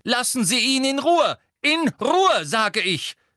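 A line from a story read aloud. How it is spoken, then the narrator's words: Calling out. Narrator (German): rief Professor McGonagall durch die Dunkelheit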